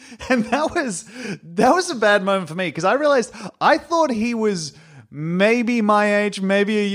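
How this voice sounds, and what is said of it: Usual voice. Nothing is said of it.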